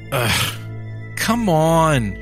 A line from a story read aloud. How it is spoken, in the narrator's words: she groaned